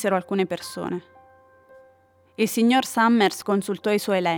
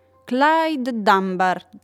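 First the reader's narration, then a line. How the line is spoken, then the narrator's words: Plain. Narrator (Italian): disse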